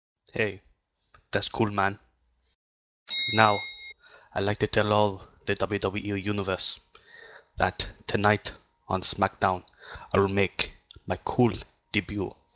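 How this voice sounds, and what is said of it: Put-on Scottish accent. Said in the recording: “with a Scottish accent”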